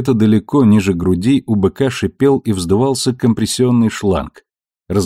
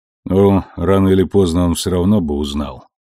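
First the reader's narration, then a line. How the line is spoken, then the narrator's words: Sigh, bull. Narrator (Russian): вздохнул бык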